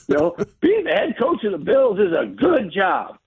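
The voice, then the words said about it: Imitated Southern accent, Buddy Nix. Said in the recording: “The GM at the time had to tell people, it's a good job, you know, with that Southern accent.”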